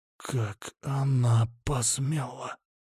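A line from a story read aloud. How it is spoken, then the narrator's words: Ominous whisper in silence. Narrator (Russian): раздался в мертвой тишине зловещий шепот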